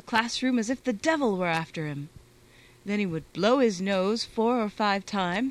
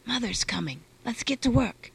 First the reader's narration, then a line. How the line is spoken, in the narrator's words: Pavel Vasilich whispered